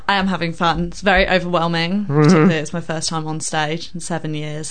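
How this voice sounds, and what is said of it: Southern English accent. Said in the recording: “you've got a good accent ... you're not from around here originally”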